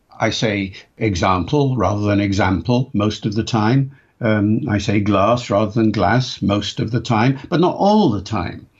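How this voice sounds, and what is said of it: Modified RP, faint Welsh and Liverpool traces. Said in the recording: “modified RP or regional RP ... the sort of accent that I'm using now, it's not identifiable with any particular part of the country, though if you listen carefully, you'll hear my Welsh roots in there somewhere, perhaps, you know, and you'll hear my Liverpool background in there somewhere”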